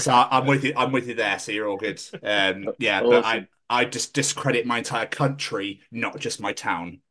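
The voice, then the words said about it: English accent. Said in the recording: “Scottish with an English accent”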